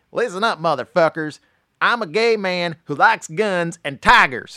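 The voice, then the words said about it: Imitates another person's voice. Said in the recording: “my Tiger King impression ... I haven't perfected yet”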